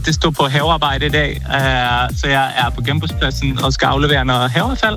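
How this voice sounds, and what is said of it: Swedish accent speaking Danish. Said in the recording (Danish): “Jeg kan høre en accent. Er du svensk?”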